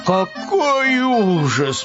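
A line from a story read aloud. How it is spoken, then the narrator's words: Groan. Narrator (Russian): простонал Пэтсон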